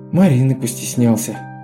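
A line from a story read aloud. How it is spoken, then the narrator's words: Repentant sigh. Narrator (Russian): вздохнул покаянно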